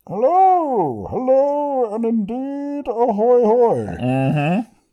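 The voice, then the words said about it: Bane character voice impression. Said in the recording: “your Bane impression ... Ah, Bane.”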